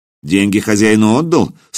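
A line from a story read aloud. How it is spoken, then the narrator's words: Stern question. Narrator (Russian): строго спросил хузарин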